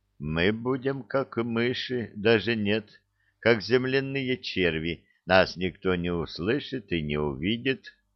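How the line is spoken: Quiet, dazed. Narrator (Russian): глядя на него стеклянными, осоловелыми глазами, тихо произнес

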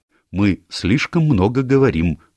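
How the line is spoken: Stern. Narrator (Russian): строго сказала миссис Оливер

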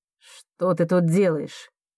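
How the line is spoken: Angry question. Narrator (Russian): зло спрашивает Лукас

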